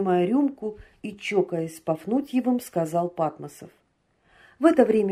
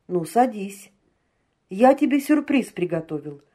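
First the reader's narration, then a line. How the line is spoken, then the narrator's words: Laughing. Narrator (Russian): смеясь сказал Патмосов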